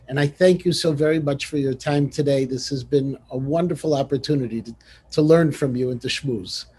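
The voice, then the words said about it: Chicago accent. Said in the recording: “your Chicago accent doesn't interfere. I understood every word.”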